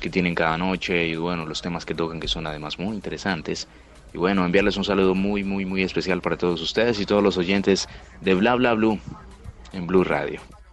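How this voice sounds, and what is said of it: Deep booming radio announcer voice. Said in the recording (Spanish): “Qué bozarrón el de ... Tiene voz de locutor. el locutor total.”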